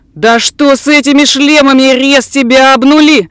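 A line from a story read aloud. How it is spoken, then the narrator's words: Yelling. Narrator (Russian): заорал Курт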